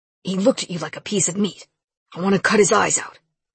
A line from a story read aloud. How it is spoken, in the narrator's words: growled